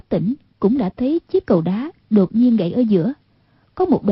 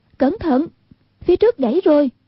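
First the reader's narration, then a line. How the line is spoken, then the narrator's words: Urgent warning cry. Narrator (Vietnamese): Hoàng Dung kêu lên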